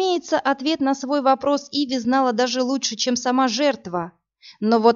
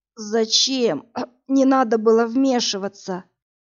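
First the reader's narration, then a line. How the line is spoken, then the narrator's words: Moaning young man, coughing. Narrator (Russian): Простонал парень и кашлянул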